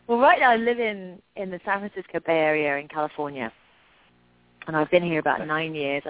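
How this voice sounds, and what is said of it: English accent. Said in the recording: “a great accent from England”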